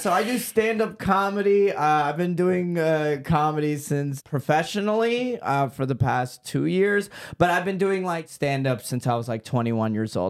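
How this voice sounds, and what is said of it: Mild Texan twang. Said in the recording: “seem to have a cute little twang thing going on in... Texas?... I heard a little bit of like a fun twang there.”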